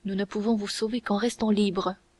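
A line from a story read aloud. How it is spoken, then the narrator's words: Quick, very low reply. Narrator (French): répondit rapidement et tout bas d'Artagnan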